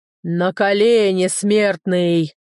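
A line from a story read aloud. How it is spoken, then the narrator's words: Booming monstrous roar, gong-like. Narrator (Russian): Гулко взревело это чудовище, словно ударили в гонг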